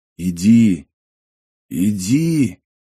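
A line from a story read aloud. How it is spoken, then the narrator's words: Sudden whisper by ear. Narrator (Russian): прошептал вдруг над его ухом какой-то голос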